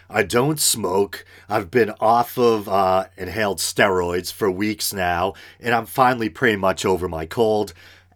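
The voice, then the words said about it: Raspy voice. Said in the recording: “Why does my voice sound so raspy today?”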